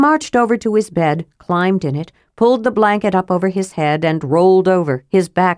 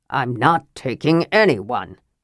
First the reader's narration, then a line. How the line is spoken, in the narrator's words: Flint growled